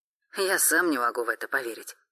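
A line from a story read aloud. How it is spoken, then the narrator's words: Wry snort. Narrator (Russian): хмыкнул Тёма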